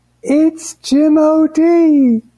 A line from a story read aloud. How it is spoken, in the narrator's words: one woman she screamed out